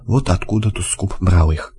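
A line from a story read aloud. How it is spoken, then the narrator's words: Muttered. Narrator (Russian): пробормотал лось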